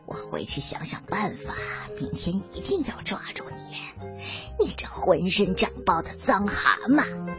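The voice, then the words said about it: Quiet muttering voice. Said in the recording (Chinese): “一边小声的嘀咕”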